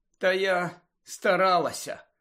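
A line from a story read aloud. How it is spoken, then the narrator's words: Tired. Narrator (Ukrainian): втомлено сказала вона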